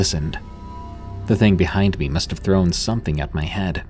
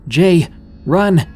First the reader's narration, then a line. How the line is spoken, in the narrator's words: yelled